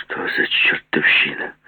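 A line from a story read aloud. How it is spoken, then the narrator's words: Hoarse. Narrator (Russian): сипло сказал Груздев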